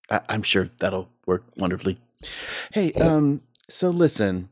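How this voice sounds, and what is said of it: Usual voice. Nothing is said of it.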